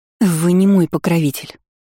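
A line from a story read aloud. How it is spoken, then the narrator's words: Hoarse wheeze. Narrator (Russian): просипела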